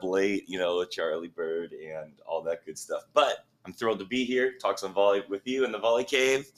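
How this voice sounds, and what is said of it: Hoarse, strained voice. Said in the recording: “Lost my voice. Watched a bunch of volleyball games this week ... You, you lost your voice watching volleyball ... I didn't have much of a voice to begin with, though.”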